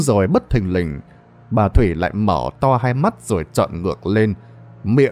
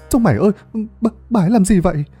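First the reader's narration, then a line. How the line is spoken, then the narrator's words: Stammering boy. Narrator (Vietnamese): Thằng Bầu lắp bắp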